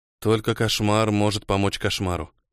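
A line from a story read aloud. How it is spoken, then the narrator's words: Muttering. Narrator (Russian): пробормотал он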